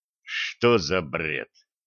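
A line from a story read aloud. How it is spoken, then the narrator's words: Stunned mutter. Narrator (Russian): ошарашенно пробормотал Федя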